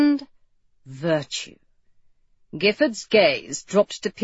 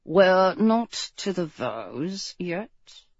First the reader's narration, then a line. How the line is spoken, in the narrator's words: the priest muttered out of the side of his mouth